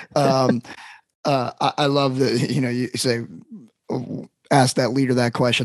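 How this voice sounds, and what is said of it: Hoarse, worn-out voice. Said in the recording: “I scream the entire summer. My voice is going”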